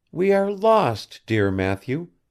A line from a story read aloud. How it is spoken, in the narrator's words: said she mournfully